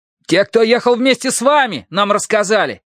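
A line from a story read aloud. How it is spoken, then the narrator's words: Archer shouting. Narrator (Russian): крикнул лучник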